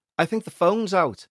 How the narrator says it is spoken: he shouted upstairs

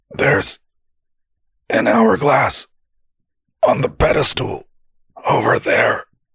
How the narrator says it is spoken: Ven grunted

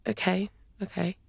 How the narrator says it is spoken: Kaya whispered

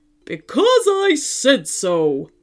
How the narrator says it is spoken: roared the robot dinosaur

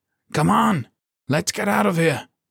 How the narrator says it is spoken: he yelled

